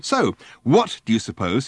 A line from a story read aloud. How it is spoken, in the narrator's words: he asked fiercely